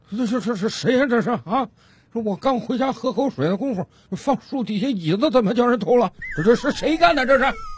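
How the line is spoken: Old man muttering to himself. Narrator (Chinese): 这老大爷自言自语的嘟囔道

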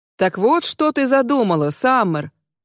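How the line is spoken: As loud as dared. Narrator (Russian): Произношу я настолько громко, насколько осмеливаюсь

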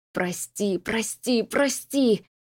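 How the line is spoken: Faint moan. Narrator (Russian): Застонал Дарт, но никто не услышал

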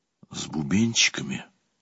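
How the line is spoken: Whisper. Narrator (Russian): прошептал я

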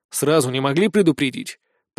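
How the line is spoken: Grumbling. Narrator (Russian): проворчал

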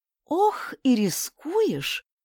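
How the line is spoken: Sighing. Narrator (Russian): вздохнула Раула

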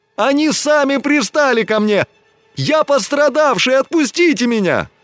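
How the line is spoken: Increasingly loud yelling. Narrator (Russian): Чем дальше его волочили от барака, тем громче он вопил

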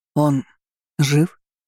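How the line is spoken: Stammering question. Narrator (Russian): запинаясь, спросил я

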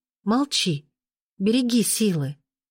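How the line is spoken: Pleading. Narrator (Russian): взмолилась

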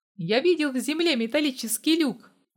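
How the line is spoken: Frantic screaming. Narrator (Russian): заорала истошно я

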